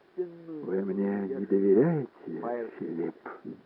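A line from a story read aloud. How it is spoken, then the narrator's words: Muffled question. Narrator (Russian): Она глухо спросила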